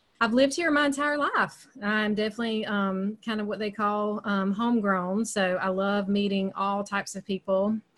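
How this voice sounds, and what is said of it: Southern American accent. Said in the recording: “you can probably tell by my accent, there's some Southern there”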